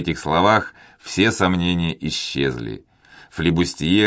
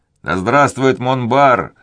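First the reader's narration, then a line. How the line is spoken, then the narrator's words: Ecstatic crowd roar. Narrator (Russian): с восторгом взревели флебустьеры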